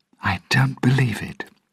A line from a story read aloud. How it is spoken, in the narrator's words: she said quietly